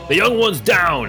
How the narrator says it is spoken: Brynby is going to yell out

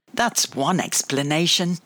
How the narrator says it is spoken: laughed Grandma

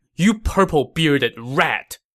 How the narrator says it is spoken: Guan Yu shouted sternly

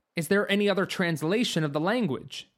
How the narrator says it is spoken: Stanley said

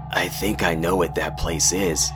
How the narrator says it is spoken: I murmured

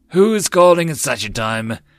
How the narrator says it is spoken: Shireen grumbled sleepily

